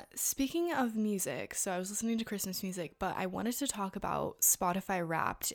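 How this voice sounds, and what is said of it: Sore, fading voice. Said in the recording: “my voice is, like, so sore, like, it's, like, diminishing every second.”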